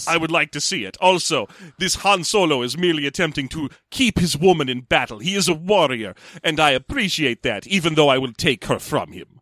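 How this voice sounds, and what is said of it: Put-on foreign-sounding accent. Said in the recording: “I don't know why I've decided he's got that accent. ... the accent's coming from Han probably perceiving this guy as a foreign threat.”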